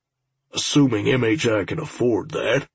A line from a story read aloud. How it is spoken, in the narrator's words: Al muttered